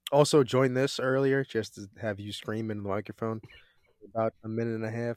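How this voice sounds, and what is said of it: Sick voice, sore throat. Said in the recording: “I'm sick. I have a sore throat. I've been coughing. A lot of mucus going on.”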